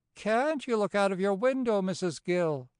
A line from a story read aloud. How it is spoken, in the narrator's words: quoth the fairy, laughing softly